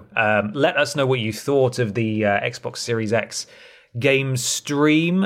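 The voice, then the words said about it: Slightly hoarse, strained voice. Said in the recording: “I'm losing my voice a little bit today”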